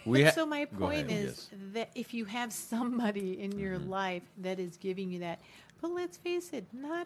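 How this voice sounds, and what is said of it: Raspy, sick-sounding voice. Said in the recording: “This is how I sound when I'm sick. You know, you get the sexy voice when you're sick... I know, the raspy.”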